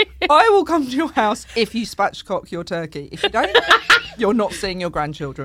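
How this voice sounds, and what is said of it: Essex accent. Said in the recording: “the way ... says it ... It's the Essex accent”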